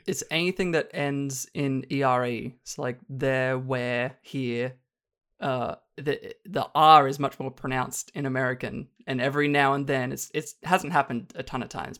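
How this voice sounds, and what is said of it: Australian accent. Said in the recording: “I need to keep the Aussie accent going before I lose it. ... You sound still very Australian.”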